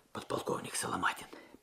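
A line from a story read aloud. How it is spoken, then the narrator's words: Whisper. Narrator (Russian): прошептал Алексей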